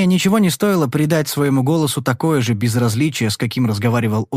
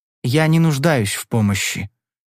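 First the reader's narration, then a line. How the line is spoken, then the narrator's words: Very calm young man. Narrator (Russian): проговорил юноша очень спокойно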